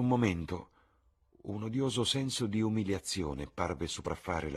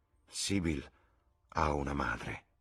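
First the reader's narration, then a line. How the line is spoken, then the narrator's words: Murmur. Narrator (Italian): mormorò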